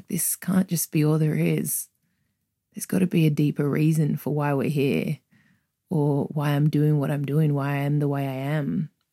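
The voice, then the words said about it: Australian accent. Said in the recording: “I grew up in Australia, if you can't tell from my accent”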